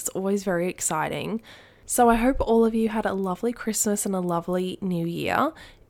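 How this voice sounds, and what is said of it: Voice sounds sick, recovering. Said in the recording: “you can probably hear in my voice, I was sick. I'm still getting better.”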